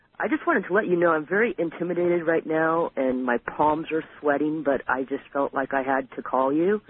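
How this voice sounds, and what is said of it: Low, quiet voice. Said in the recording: “my voice is kind of low, but I'm reclining right now”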